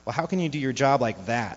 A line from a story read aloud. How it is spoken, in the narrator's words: she cried